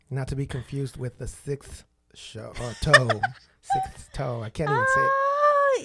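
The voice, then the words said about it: Mexican accent. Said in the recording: “Yours sounds a little special... my accent?... playing the Mexican card”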